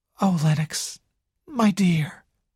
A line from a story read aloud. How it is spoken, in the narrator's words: sighed Nadine